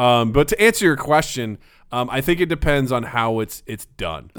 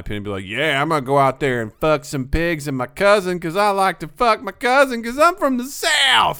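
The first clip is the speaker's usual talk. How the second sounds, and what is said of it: Exaggerated offensive Southern accent. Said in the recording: “I could do an offensive Southern accent”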